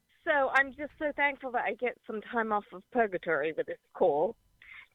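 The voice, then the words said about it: Noticeable foreign accent. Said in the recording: “Is that a great accent or what? What accent is that? ... I'm born in London, mother German. Now I'm an American.”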